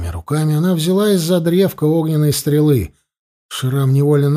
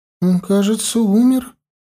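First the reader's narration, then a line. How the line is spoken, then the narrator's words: Trembling voice. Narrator (Russian): дрогнувшим голосом проговорила Кирия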